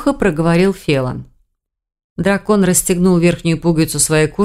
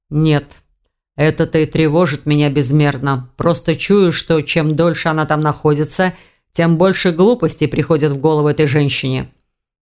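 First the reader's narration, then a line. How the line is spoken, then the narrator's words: Growling. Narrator (Russian): прорычал Филан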